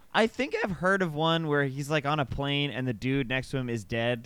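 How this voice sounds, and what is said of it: Usual voice. Nothing is said of it.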